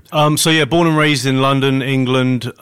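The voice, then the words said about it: British accent. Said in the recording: “The British accent. ... I'm from England.”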